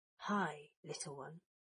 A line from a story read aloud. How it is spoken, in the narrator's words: Draco whispered